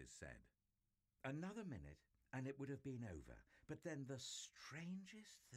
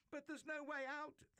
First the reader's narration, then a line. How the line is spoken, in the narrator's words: they cried